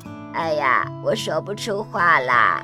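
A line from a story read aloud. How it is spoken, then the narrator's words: Hoarse. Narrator (Chinese): 声音沙哑地说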